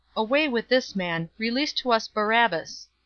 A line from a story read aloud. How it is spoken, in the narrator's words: they all cried out together, saying